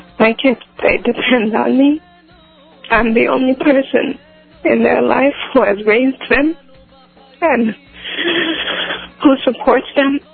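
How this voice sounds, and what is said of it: Emotional, choked-up voice. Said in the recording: “I'm just getting emotional.”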